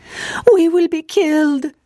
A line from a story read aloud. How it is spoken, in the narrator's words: they exclaimed